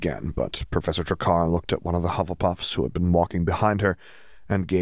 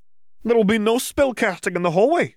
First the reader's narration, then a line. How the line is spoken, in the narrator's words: Professor Trakar shouted